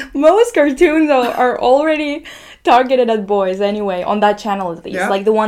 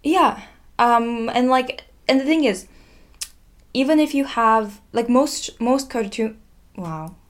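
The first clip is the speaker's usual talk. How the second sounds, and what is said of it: Put-on Russian accent. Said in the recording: “Nice Russian accent.”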